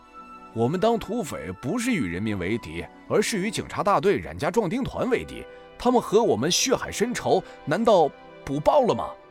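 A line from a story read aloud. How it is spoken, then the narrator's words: Plain. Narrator (Chinese): 向铁柱问了句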